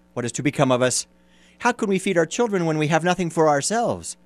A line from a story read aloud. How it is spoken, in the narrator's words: worrying about his problems, he sighed and said to his wife